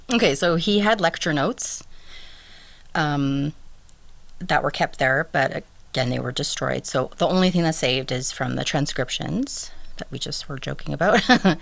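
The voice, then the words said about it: Strained, fading voice. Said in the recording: “I'm losing my voice too”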